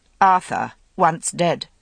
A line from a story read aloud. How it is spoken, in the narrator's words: repeated firmly